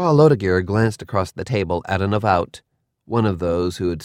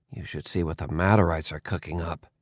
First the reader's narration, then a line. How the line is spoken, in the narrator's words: I muttered